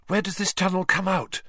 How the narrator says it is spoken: Hermione asked breathlessly from behind him

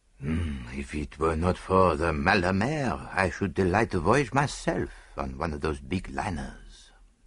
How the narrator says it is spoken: murmured Poirot dreamily

